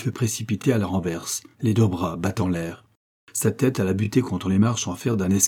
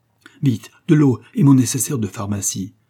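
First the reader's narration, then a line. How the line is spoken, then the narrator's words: Young man's calm urgent cry. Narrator (French): s'écria le jeune homme sans perdre son sang-froid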